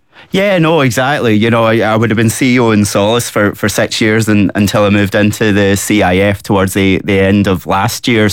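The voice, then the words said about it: Scottish accent. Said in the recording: “You are a Scot. People are going to hear from your accent.”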